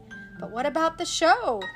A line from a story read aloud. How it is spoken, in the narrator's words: the Mouseketeers asked Mickey anxiously